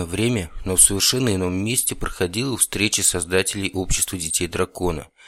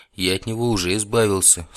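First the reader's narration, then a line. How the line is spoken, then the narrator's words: Calm reply. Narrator (Russian): спокойно ответил ремесленник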